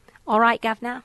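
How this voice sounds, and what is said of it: Put-on Cockney accent. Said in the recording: “English Cockney accent ... Can you do a Cockney? ... an authentic accent”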